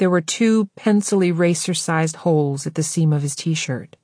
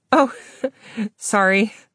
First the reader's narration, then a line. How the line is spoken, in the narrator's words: she laughed